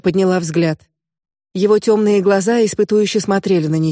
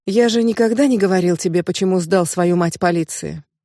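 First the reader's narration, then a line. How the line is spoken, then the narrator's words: Sighing question. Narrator (Russian): Он вздохнул и спросил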